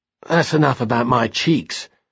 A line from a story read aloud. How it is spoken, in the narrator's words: Snow muttered, blushing heroically